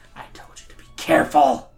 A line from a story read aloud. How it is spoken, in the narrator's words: she laughs at him out loud, then whispers